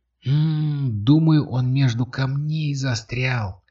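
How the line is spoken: Young woman whispering. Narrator (Russian): шепнула девушка

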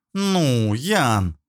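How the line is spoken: Drawn-out drawl. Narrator (Russian): протянула она

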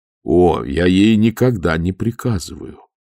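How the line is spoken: Plain. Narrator (Russian): ответил Моркоу

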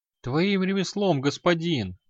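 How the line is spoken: Sharp cry. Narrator (Russian): вскрикнула Белькис

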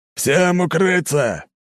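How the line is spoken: Roared through megaphone. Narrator (Russian): взревел в мегафон капитан судна

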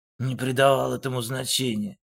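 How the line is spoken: Grumbled. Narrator (Russian): буркнул Вадим

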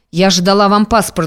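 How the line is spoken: Rough snap. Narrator (Russian): грубо рванула Лусьева

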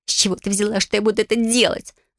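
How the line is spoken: Hissed. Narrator (Russian): зашипела она

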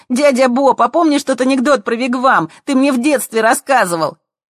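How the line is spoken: Shouting. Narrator (Russian): кричали

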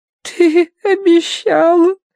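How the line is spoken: Pouting whine. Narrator (Russian): кривя нижнюю губу, захныкала Агнес

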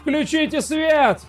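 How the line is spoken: Man shouting. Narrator (Russian): кричал какой-то мужчина

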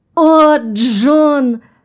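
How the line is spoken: Old woman sobbing. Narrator (Russian): всхлипнула старуха

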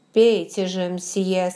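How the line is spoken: Plain. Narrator (Russian): сказал король

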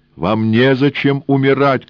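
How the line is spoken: Shout. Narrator (Russian): крикнул он

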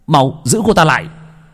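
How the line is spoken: Alarmed warning shout. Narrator (Vietnamese): Như dự cảm điều gì chẳng lành, Gia Huy hét lên cảnh báo

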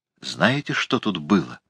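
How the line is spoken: Whispered. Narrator (Russian): шепнула она

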